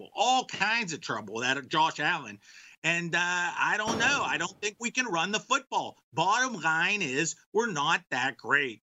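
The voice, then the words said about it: Pittsburgh accent, Myron Cope impression. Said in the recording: “That's part of the Pittsburgh Steelers voice. And Myron Cope used to do that... That was an excellent, excellent accent... Myron Cope... You can only do that growing up where you did.”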